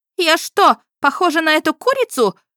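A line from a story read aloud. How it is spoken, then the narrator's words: Shrieking. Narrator (Russian): взвизгнув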